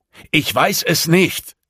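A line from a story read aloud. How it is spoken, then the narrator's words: Roared. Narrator (German): brüllte er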